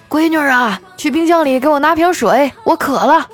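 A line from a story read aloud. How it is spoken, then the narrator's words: Father calling. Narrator (Chinese): 老爸叫我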